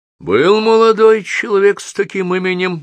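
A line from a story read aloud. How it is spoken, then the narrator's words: Impassive bureaucratic voice. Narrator (Russian): бесстрастным голосом чиновника ответит отечество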